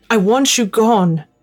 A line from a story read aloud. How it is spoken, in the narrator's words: said out loud, surprised by how little my voice shook